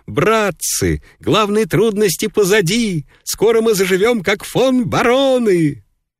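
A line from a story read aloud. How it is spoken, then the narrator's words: Joyful shout. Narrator (Russian): захотелось сказать что-нибудь хорошее, захотелось крикнуть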